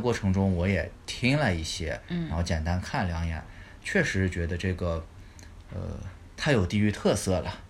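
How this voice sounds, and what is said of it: Mandarin with Taiyuan accent. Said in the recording (Chinese): “我们自己觉得我们自己说的是普通话。但其实我们说的是标标准准的太原普通话”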